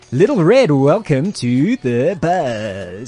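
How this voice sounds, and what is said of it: Exaggerated game show host voice. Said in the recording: “That stupid game show voice”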